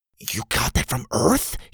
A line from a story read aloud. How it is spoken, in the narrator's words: whispered